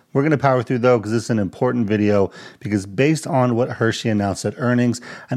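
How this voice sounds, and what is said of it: Congested, slightly messed-up voice. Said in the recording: “my voice is a little messed up. I'm still dealing with some congestion”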